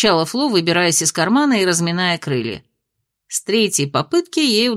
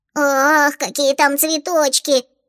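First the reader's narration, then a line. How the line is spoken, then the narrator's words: Delighted squeaky little girl. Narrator (Russian): восторженно пропищала рыжеволосая малышка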